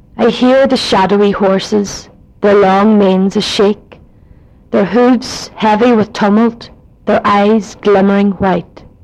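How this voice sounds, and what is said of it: Put-on Donegal Irish accent. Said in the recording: “now I'll read it in a Donegal accent.”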